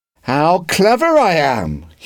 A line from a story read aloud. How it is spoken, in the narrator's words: he shouted